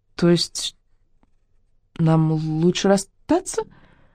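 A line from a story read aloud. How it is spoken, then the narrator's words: Stammering. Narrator (Russian): заикаясь, произнесла она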